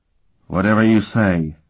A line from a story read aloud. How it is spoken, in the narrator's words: Sparhawk replied